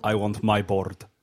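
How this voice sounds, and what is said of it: Thick Russian accent, Whiplash impression. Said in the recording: “Mickey Rourke's character. ... Thick Russian accent.”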